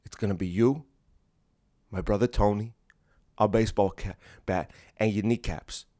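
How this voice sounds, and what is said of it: Hacky Italian-American tough-guy voice. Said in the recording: “don't do that voice a lot on this podcast... so obnoxious and hacky... The gabagool, the pasta fajoule”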